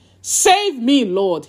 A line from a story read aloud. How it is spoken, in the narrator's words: he shouted